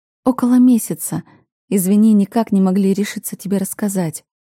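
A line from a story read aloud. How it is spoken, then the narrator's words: Timid, guilty, smiling. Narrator (Russian): робко улыбаюсь, чувствуя свою вину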